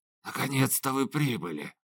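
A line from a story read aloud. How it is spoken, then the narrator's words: Hoarse whisper. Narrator (Russian): прошептал неизвестный хриплым голосом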